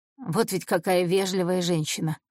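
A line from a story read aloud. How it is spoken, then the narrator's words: Grumbling. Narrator (Russian): ворчал Бизана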